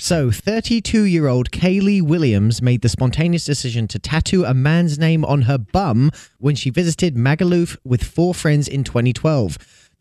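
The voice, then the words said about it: English accent. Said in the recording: “they wanted to hear my accent.”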